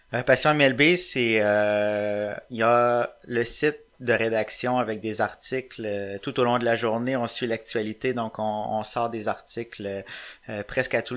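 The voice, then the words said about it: Quebec French accent. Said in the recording (French): “mon accent québécois va pas faire tâche ... ton accent il passe large”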